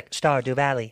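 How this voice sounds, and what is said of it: Robotic Stephen Hawking voice. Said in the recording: “That wasn't Asian. That was robotic. ... Stephen Hawkins.”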